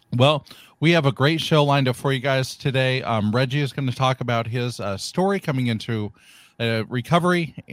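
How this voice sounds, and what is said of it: Hoarse, croaky voice. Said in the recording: “I have a frog in my throat”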